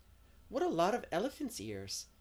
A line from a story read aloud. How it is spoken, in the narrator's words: exclaimed Diana